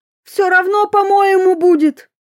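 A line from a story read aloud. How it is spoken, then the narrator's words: Shout. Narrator (Russian): Фанька-тварь отбежав на весь дом, крикнула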